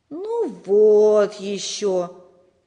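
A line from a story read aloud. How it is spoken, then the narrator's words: Disappointed drawl. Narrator (Russian): разочарованно протянул Сережа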